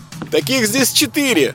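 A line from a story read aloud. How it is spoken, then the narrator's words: Loud squeak. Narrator (Russian): пискнул громко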